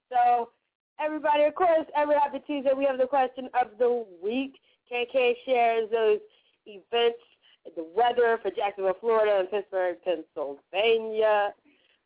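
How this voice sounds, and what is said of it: Congested, stuffed-up voice. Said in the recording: “I'm recovering from this sickness. You can hear it in my voice. I was just stuffed up”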